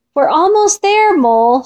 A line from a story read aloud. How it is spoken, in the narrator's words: shouted Fox